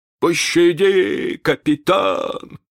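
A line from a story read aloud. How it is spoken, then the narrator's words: Trembling whimper. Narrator (Russian): захныкал Старки, дрожа всем телом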